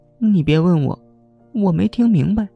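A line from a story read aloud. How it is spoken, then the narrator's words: Quiet, suppressing laughter. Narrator (Chinese): 杨子怡有些想笑，但意识到无机是个病人，只能绷紧双颊，小声说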